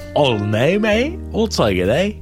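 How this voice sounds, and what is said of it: Fake English accent. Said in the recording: “my fake English accent”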